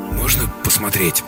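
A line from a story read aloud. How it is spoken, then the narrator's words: Hoarse, sore throat. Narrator (Russian): Слова звучат хрипло, горло жестоко саднит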